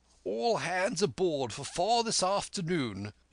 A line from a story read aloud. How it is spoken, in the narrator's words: shouted the squire after him